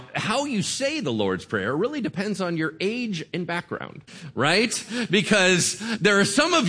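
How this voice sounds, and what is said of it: Usual voice. Nothing is said of it.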